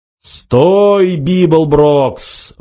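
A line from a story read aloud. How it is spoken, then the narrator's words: Roaring over loudspeaker. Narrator (Russian): взревел усиленный громкоговорителем голос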